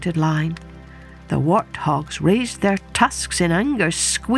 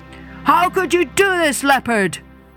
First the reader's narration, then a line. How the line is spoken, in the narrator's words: they cried